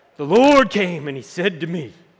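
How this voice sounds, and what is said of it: Exaggerated preacher voice. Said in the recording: “you start getting your preacher voice on ... somebody says something differently, like the Lord.”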